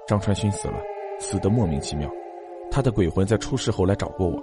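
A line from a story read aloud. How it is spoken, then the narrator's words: Deep grave voice. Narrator (Chinese): 何建飞沉声道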